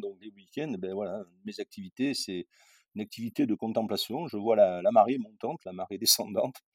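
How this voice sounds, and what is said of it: Southern French accent. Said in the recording (French): “dans mon accent, je ne suis pas né en Angleterre, hein, c'est évident... du sud de la France”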